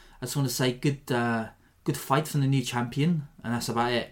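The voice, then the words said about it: Poor South African accent, drifting Welsh. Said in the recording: “I'm not very good at the Afrikaans pronunciation ... I'm not too good at doing that accent, as you can tell from my impression here ... I'm starting to sound Welsh”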